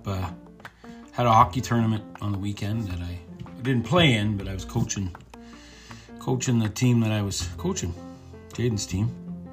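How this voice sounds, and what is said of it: Voice sounds a little off. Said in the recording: “My voice is still a little screwed up.”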